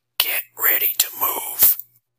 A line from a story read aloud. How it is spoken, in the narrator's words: He whispered in mouth